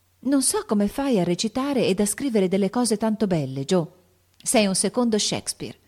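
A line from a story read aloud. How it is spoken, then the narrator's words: Exclamation. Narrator (Italian): esclamò Beth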